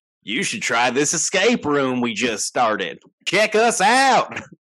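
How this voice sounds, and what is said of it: Put-on redneck accent. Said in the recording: “you should do way more bits with that accent because that's hysterical ... you do a good redneck”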